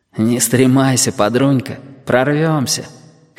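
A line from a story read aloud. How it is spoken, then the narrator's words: Husky breathy voice. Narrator (Russian): хрипловато дохнули с другой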